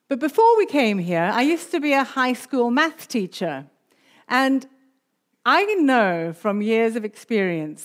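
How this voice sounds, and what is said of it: South African accent with British mix. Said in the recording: “we came from the UK. But my accent's actually mainly South African, so there's a bit of a mixture there”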